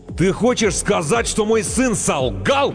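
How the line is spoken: Deafening roar, big man. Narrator (Russian): Оглушительно взревел детина

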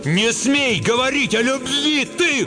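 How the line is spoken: Shout. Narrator (Russian): крикнул Шут

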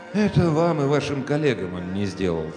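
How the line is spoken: Sighing. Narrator (Russian): вздохнул Иван Петрович

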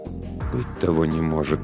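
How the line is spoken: Uncertain whisper. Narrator (Russian): прошептал рулевой, но его голосу недоставало уверенности

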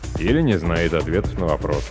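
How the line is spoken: Gloomy summing up. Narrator (Russian): мрачно подытожил один из членов министерской комиссии

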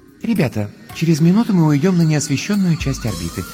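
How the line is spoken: Tender voice through suit speakers. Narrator (Russian): нежным голосом напоминает из динамиков скафандра Астрид Йенсен

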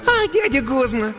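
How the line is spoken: Cheerful laughing girl. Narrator (Russian): Девчонка весело рассмеялась

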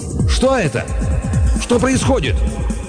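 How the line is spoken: Shout. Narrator (Russian): он крикнул Баро

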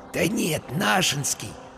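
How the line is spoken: Whisper in ear. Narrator (Russian): шепнул ему на ухо Вася

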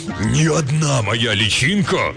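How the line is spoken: Pause, then fierce roar. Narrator (Russian): Голос его замер, а затем взревел

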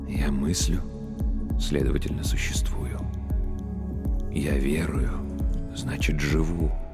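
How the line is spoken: Whispered, priest. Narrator (Russian): прошептал священник

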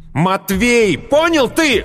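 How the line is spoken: Hateful shout. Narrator (Russian): выкрикнул с ненавистью

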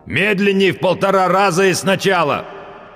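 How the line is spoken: Loud growl. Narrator (Russian): прорычал он, как любой человек, забывший, что он в наушниках

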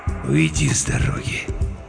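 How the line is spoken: Growling. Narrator (Russian): зарычал

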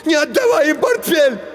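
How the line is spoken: Shout. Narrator (Russian): Женя закричал

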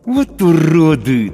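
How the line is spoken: Through gritted teeth. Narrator (Russian): цежу сквозь зубы я

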